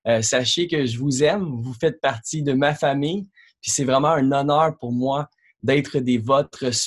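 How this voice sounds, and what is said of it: Quebec French accent. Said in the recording (French): “Vous allez remarquer, j'ai un accent québécois.”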